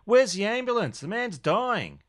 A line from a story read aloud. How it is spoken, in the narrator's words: Max turned back to Simone, yelling